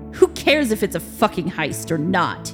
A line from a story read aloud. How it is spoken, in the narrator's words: said angrily